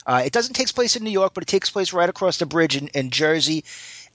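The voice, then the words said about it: New York accent. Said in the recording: “As someone who grew up in New York, you probably could tell from my accent.”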